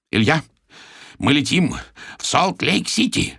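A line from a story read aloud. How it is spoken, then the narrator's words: Hoarse rasp. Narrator (Russian): хрипит он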